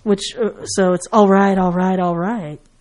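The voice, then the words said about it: Bad Matthew McConaughey impression. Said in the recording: “that's my very bad Matthew McConaughey impression.”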